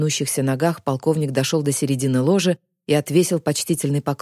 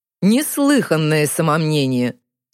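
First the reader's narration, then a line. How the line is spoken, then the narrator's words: Laughing. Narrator (Russian): Засмеялся магистр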